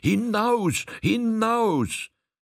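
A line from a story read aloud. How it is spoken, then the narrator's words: Crowd screaming. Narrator (German): 10, 20, 50, 100 schrien es ihm nach, und in wahrer Todesangst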